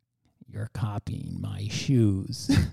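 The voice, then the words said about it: Creepy imitated voice. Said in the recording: “That's how you sounded. I know you sound like a creepy pedophile”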